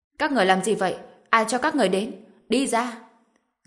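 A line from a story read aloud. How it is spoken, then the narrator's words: Loud shout. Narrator (Vietnamese): Dương Quế Lan hét lớn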